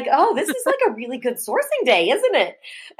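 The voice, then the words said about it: Put-on Midwest Minnesota accent. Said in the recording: “You did some sort of like Midwest like accent. Minnesota?”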